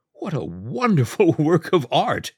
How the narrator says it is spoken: laughed uproariously

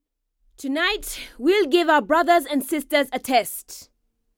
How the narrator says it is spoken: Shama said, addressing the group in a loud voice

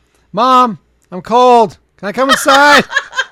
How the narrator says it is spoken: our then 3-year-old son ... yell

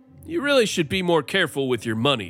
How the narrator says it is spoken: said

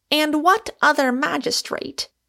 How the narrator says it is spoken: cried Michael, raising his voice

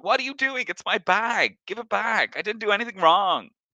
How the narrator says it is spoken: the man is screaming, going

